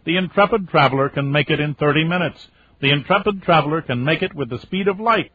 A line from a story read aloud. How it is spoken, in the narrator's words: says Babs, who was laughing and practically shouting into the phone